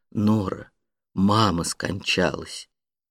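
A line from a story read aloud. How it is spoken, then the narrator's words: Slow and solemn. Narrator (Russian): медленно и торжественно произнес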